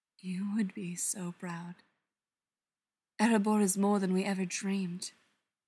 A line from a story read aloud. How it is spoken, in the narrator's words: softly says